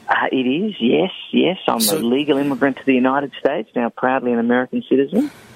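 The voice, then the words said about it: Australian accent. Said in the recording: “Is that a Australian accent I hear?”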